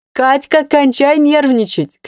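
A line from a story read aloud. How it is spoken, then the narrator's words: Shouting. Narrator (Russian): кричала Инна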